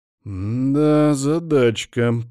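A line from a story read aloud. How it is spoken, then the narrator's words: Drawled. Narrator (Russian): протянул Аргус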